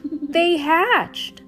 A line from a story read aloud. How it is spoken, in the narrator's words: I exclaimed to my mom